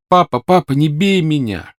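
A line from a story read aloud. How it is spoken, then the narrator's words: Shouting. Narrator (Russian): кричал он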